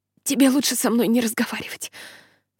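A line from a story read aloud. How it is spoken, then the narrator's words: Wheezy whisper. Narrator (Russian): шепчу я, издавая хрипы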